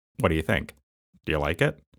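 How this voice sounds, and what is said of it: Impression of speaker's father. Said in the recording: “really good impression of my dad”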